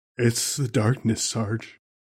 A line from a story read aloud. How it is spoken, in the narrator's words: Private Bukowski mumbled from his dreamlike state